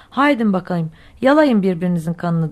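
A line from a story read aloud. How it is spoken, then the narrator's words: Plain. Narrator (Turkish): dedi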